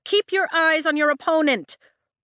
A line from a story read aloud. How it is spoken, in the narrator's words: Rhee shouts at Sloane from the sidelines